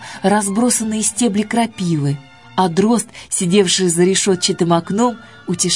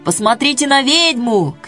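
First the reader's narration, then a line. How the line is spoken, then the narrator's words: Crowd shouting. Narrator (Russian): кричали в толпе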